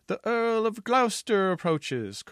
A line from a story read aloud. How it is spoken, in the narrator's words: cried a sentry on the west wall